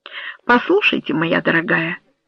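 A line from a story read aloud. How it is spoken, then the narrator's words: Tender. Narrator (Russian): нежно сказал он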